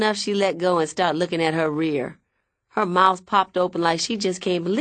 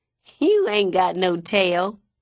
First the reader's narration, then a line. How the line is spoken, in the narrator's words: I laugh